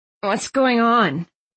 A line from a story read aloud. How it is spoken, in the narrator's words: Thistle asked, rubbing her eyes wearily